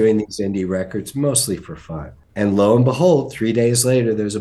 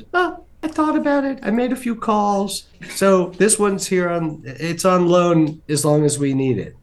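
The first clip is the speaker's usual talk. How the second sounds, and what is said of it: Bad high-pitched imitation of another man. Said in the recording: “that was a bad impression of John Anderson, but he does have a very high voice”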